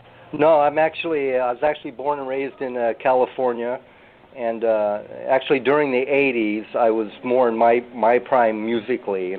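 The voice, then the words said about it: American-sounding accent. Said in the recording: “you have a very Americanized accent. I didn't think that was a pure Philippines accent.”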